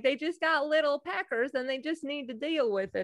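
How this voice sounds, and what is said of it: Put-on Southern accent. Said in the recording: “I use the Southern accent.”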